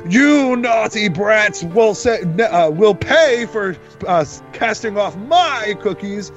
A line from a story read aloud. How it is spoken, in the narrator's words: she screams